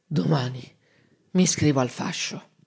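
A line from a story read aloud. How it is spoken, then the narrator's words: Slow, drowsy, slurred speech. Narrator (Italian): si calmò, piano piano, tra una bollicina di saliva e l'altra, disse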